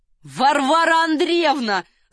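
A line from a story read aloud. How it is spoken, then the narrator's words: Shout. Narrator (Russian): закричал Ахиллес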